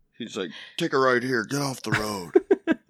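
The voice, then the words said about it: Nicolas Cage impression. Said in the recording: “your Nicolas Cage impression”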